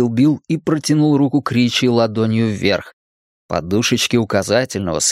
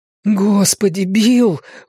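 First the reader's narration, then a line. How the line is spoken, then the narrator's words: Breathless exhale. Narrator (Russian): выдохнул Ричи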